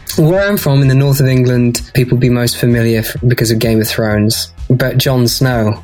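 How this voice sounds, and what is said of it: Southern English British accent. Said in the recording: “you've got like the proper British accent ... people just think I'm a toffee-nosed Brit ... It's more of a southern accent.”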